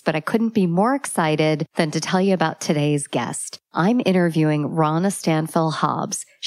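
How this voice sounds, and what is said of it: Congested voice from a cold. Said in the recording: “I have a cold, so forgive my voice”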